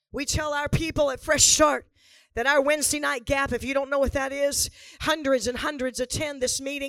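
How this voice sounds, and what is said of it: Hoarse voice. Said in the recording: “That's why I'm hoarse right now... it's why I'm hoarse right now. It's because I screamed all last weekend.”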